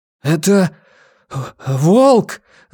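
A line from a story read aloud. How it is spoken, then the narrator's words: Breathless, forced out. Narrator (Russian): задыхаясь, выдавил из себя он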